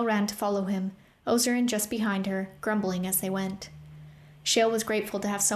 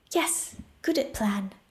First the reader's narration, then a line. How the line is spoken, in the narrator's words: Whisper agreed